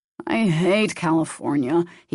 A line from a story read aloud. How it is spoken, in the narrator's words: he grumbled